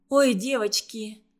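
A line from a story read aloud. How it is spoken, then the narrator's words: Sighing. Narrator (Russian): вздохнула она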